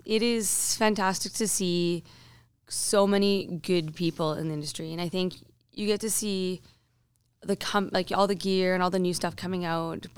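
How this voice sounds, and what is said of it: Hoarse, nearly lost voice. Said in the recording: “As everyone can probably hear by now, I've pretty much lost my voice.”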